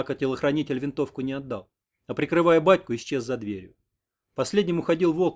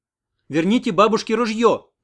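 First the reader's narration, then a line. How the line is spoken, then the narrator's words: Shout after someone. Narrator (Russian): крикнула вслед Оксана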